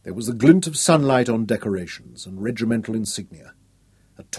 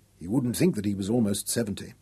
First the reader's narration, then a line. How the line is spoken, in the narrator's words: Nicholas said quietly